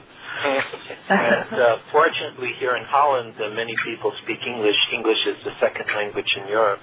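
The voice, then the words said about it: American accent, slight Dutch tinge. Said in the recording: “as your listeners can hear, I'm American, although two of my friends have already told me that I'm starting to pick up a Dutch accent.”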